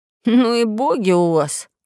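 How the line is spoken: Grumble. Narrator (Russian): проворчал Пашка

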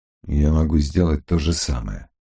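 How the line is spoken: Gentle remark. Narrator (Russian): мягко заметил Феннель

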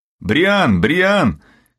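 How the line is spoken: Child shouting. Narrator (Russian): кричал 9-летний мальчик

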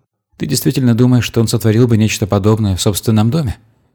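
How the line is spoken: Plain. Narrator (Russian): спросил медиатор

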